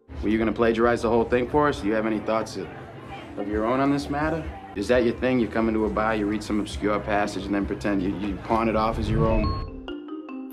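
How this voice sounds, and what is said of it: New England American accent. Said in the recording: “New England, which was one of the first U.S. regions to develop its own American English accent. Today, a speaker from New England might say”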